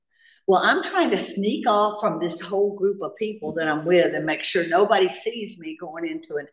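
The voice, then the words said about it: Southern American accent. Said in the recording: “They loved my accent... Tara and the South”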